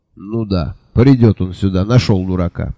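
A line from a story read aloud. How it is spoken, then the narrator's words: Snort. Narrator (Russian): хмыкнул Джуфин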